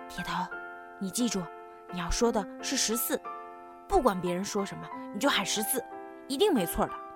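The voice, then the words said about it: Quiet whispered speech. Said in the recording (Chinese): “小声的对铁头说”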